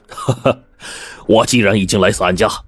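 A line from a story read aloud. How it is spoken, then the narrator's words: Relaxed hearty laugh. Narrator (Chinese): 严鹤却是轻松一笑，豪爽的说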